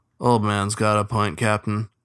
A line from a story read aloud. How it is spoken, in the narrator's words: said Cairo, in the same monotone drawl